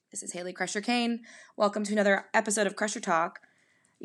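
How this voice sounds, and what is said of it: Worn-out, hoarse voice. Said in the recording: “my voice is pretty thrashed from tour dates ... I sound like crap, but that is because I have been singing my guts out”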